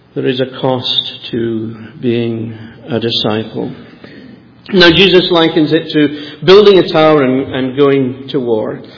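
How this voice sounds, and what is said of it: Soft Edinburgh accent. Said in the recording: “this wonderful soft accent ... it's an Edinburgh accent”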